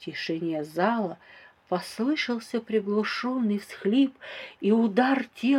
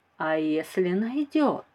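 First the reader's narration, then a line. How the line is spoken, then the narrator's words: Plain. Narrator (Russian): спросила я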